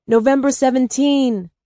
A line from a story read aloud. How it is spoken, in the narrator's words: I yelled